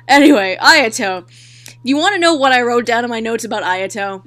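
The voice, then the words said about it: Strained, fading hoarse voice. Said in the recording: “I'm losing my voice. I can feel myself losing my voice.”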